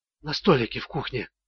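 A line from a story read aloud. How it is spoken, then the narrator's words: Whisper. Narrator (Russian): прошептала Мэрилин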